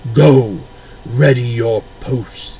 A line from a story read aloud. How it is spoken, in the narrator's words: the voice boomed